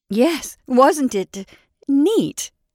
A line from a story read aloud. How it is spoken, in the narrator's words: she agreed wildly